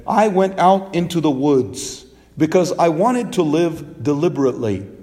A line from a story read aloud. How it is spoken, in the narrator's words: said